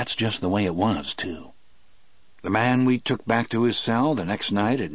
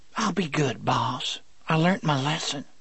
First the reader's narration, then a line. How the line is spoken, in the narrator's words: he whispered in a humble little voice